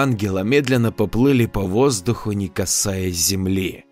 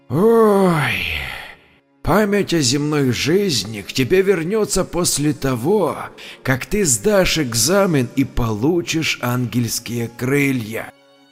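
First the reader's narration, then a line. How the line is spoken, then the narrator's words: Quiet sighing old man. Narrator (Russian): Старец вздохнул и тихо ответил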